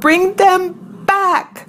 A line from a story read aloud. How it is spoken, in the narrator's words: I howled